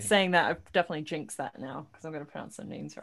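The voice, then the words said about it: British accent. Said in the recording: “you have that British accent”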